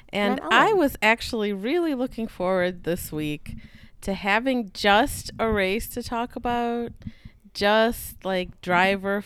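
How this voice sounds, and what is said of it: American accent. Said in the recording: “a Formula One podcast in an American accent.”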